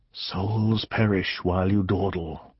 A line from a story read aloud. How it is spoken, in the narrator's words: The coals whispered to him